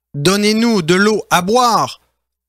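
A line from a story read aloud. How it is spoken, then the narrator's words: Plain. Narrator (French): Moïse leur répondit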